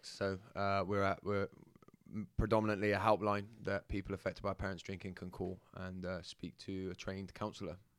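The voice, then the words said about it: Bristol English accent. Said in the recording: “my accent is from Bristol, yeah. So it'll come in and out and flitter between going into London”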